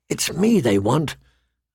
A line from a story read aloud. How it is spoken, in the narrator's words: Arya whispered back